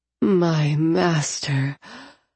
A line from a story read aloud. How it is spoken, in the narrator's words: I moaned in relief